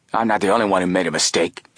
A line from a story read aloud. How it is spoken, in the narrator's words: Peters growled